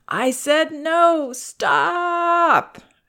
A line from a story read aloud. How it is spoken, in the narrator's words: whining and crying